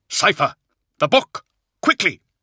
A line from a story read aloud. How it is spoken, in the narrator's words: he cried